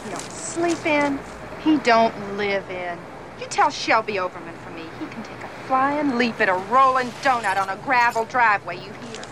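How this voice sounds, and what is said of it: Regional Florida Southern accent. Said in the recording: “regional Florida dialect ... Jawsy accents”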